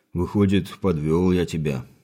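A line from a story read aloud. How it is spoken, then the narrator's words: Rueful sigh. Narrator (Russian): сокрушенно вздохнул Богдан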